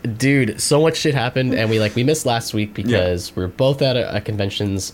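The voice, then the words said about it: Congested, sniffly, lowered voice. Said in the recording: “I got sick. ... As you can hear my awesome snorting and sniffling. ... It makes my voice so low and sexy,”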